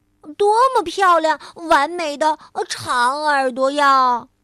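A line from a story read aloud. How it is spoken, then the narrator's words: Loud admiration. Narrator (Chinese): 小兔子大声的赞叹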